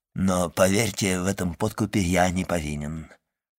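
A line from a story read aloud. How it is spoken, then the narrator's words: Forced-smile mutter. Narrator (Russian): пробормотал Вильфор, пытаясь улыбнуться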